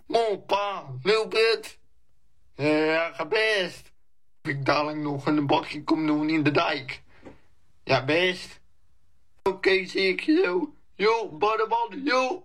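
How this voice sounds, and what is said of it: Thick exaggerated Westland Dutch accent. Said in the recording (Dutch): “zijn Westlandse accent extra dik aanzet”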